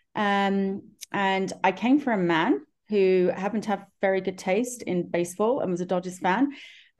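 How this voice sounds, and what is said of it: London English accent. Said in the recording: “you may realize from my accent that I'm from far, far away from Los Angeles. I'm actually from London, England”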